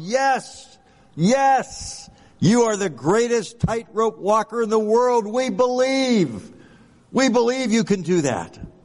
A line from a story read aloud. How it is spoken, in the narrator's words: The crowd enthusiastically yelled